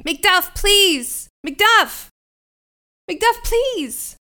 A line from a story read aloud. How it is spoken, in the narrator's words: Fleance shouting